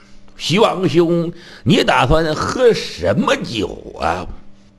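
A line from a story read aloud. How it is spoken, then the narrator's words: Laughing. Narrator (Chinese): 李世民闻听笑了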